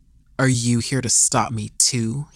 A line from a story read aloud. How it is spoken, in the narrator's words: he grumbled under his breath